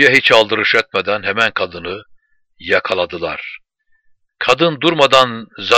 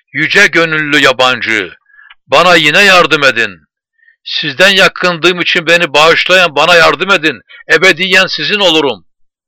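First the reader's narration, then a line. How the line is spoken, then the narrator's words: Shouting. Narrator (Turkish): diye bağırıyordu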